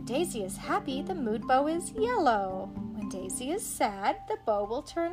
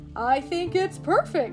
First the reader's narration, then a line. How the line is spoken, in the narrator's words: cries Pete